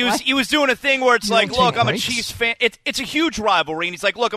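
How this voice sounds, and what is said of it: Usual voice. Nothing is said of it.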